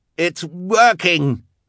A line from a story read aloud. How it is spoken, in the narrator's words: Klaus cried